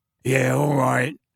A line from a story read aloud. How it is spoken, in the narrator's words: he grunted